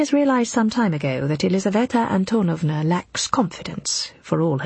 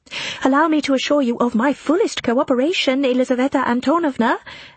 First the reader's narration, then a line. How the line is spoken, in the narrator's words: Anna shouts back eagerly